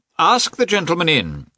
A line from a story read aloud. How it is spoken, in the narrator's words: he said in a loud voice